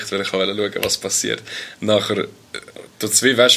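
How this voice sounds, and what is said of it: Usual voice. Nothing is said of it.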